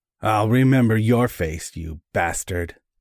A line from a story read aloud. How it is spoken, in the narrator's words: the big man growled